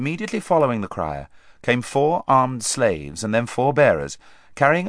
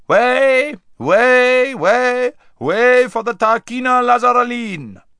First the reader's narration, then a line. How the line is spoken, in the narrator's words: was heard shouting out